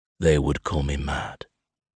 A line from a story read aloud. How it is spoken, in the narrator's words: Michael whispers